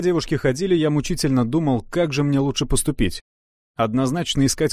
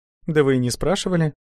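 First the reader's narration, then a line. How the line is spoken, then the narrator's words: Calm answer. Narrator (Russian): спокойно ответила Катя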